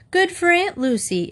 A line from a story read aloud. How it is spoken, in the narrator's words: exclaimed Mr